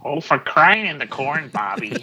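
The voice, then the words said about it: Put-on Midwestern accent. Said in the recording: “let me hear your Midwestern accent”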